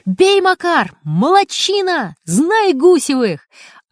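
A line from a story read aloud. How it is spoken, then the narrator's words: Flushed excited shouting. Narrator (Russian): Раскрасневшийся отец Гусева кричал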